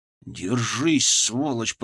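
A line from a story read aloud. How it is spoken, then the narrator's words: Hissed through teeth. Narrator (Russian): прошипел я сквозь зубы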